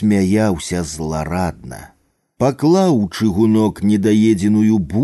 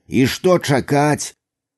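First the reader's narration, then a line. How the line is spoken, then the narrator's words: Angry shout. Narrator (Belarusian): крыкнуў ён са злосцю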